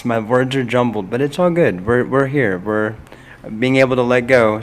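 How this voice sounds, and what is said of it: Hoarse, strained voice. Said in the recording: “I lost my voice. ... I screamed my heart out”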